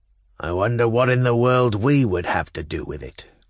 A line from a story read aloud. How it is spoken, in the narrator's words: growled B